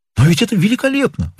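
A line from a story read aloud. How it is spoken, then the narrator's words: Exclaimed. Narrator (Russian): воскликнул МакКоннелл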